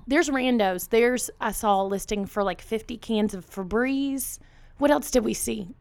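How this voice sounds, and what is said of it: Strained, fading voice. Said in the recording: “I'm like losing my voice, people.”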